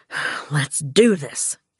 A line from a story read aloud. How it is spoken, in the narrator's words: Gus wheezed